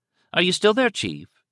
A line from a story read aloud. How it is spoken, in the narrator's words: the female voice from Bergenfield County Hospital asked brightly